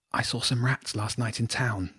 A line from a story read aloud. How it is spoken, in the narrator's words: Jenny whispered